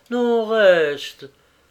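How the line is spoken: Gentle pleading. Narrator (French): suppliait gentiment Gisèle

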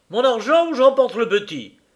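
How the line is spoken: Exclaimed. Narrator (French): s'écria-t-elle

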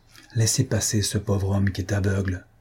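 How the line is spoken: Low voice. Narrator (French): dit-il à voix basse

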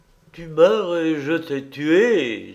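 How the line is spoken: Exclamation. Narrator (French): s'écria-t-il

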